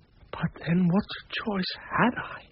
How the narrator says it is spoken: I whispered

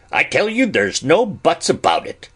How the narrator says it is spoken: said Ben rather sharply

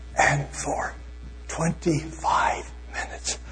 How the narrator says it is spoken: I whispered as loudly as I could

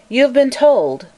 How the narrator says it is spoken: began the old colonel in a clear, ringing voice

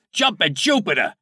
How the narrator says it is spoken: Nippy yelled

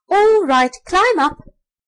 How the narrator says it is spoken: called out the rat

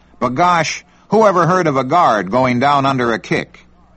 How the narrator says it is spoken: perturbed and blurted

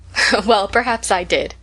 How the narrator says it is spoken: laughed Rose

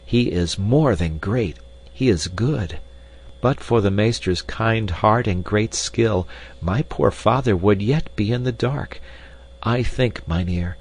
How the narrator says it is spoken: said Hans warmly

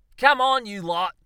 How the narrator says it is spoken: shouted

